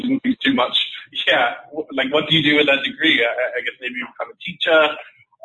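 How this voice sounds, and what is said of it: English accent. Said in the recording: “as you can tell from the accent, I started out my sales career in England”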